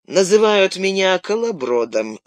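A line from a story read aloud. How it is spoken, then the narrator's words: Calm reply. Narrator (Russian): спокойно ответил бродяга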